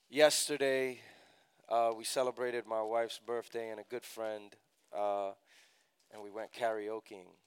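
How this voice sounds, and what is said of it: Slightly raspy voice. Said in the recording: “my voice is a little raspy this morning”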